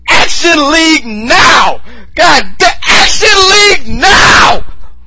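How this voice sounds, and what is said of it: Loud excited yelling. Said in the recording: “I'm yelling that shit!”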